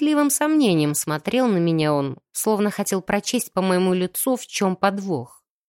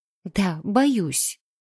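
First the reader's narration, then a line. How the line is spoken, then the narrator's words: Trembling whisper. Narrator (Russian): прошептала я чуть дрожащим голосом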